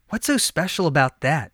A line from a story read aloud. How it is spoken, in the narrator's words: he whispered to his friend